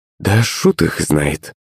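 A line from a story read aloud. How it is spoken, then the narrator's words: Mother muttering. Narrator (Russian): пробормотала маман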